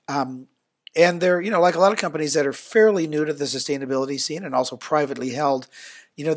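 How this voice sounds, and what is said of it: Slightly rough, tickly throat voice. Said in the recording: “I'm hearing a little bit of something like a tickle in your throat... my voice is recuperating from too many airline flights”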